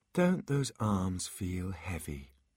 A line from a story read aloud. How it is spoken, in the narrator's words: She asked, her voice layered and irresistible